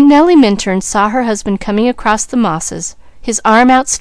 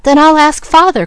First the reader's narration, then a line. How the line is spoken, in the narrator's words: cried the boy